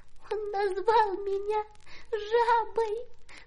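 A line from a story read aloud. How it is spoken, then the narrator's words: Sobbing. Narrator (Russian): рыдала она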